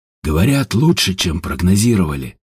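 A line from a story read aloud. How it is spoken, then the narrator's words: Sighing. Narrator (Russian): вздохнул Степан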